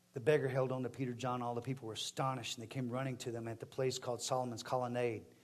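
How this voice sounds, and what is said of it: Strikingly noticeable accent. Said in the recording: “My language is different, the way I talk, the way I am. And my accent is very striking.”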